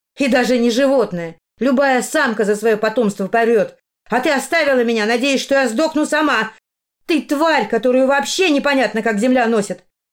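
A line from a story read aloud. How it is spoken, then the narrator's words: Shouted. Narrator (Russian): В своих подростковых мечтах, прокричав все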